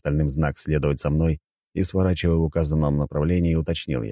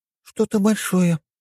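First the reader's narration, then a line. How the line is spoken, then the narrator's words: Uncertain reply. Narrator (Russian): неуверенно ответила Нюша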